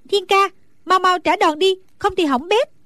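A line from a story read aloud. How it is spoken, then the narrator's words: Anxious shout. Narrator (Vietnamese): Nàng càng theo dõi càng thấy hồi hộp lo lắng, bèn la lên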